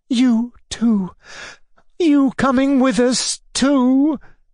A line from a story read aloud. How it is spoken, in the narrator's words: cried, incredulously, as though she dared not believe in such happiness